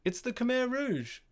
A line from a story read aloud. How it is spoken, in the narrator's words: someone shouted